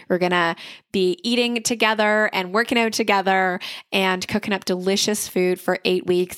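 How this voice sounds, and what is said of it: Slightly raspy voice. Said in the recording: “you might be able to hear it in my voice. Like my voice is still not fully recovered yet, and I still sound a little bit raspy.”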